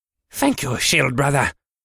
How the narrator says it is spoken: Wallach said a little breathlessly

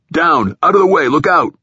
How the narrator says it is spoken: the captain or one of the troopers shouting

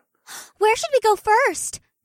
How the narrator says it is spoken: Una asked in an eager voice

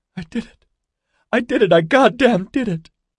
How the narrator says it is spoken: The laughter was turning hysterical

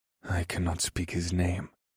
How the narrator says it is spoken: Scourge said in a quiet but determined voice

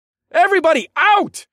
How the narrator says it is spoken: yelled

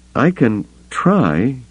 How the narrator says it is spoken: the other woman said hesitantly

